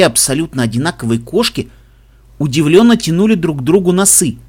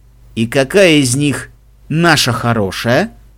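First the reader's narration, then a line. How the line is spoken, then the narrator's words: Skeptical snort. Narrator (Russian): скептически хмыкнул Себастьян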